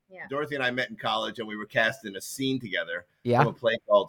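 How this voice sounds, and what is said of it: New York accent, Long Island and Brooklyn. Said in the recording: “I couldn't place the exact accent ... It's a little Long Island and a little Brooklyn.”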